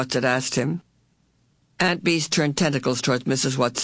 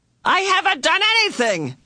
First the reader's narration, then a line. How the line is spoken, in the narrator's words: Calvin shouted